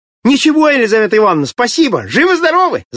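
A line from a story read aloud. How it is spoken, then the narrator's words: Shouted. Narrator (Russian): закричал Володька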